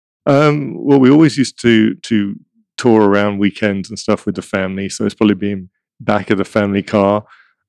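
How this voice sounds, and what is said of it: Slight English accent. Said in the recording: “a little brief accent ... I'm from London, England, originally ... that's where my accent's from”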